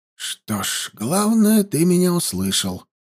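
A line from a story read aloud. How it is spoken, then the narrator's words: Whisper. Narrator (Russian): прошептал Хаста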